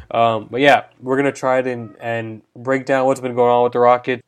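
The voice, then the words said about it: Voice rough from a cold. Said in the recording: “excuse my voice. I'm fighting a bit of a cold right now.”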